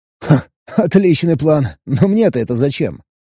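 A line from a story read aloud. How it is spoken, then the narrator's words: Snorting scoff. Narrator (Russian): хмыкнул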